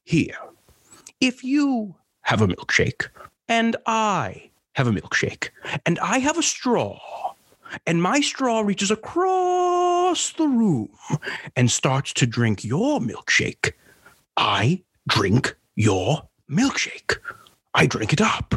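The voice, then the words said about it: Daniel Day-Lewis impression. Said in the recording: “my impression of that Daniel Gabe Lewis, as opposed to Daniel Day-Lewis”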